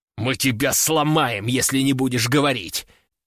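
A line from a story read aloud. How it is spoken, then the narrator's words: Hissed into ear. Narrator (Russian): прошипел он мне на ухо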